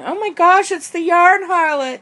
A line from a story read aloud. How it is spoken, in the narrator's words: inside my head, I'm screaming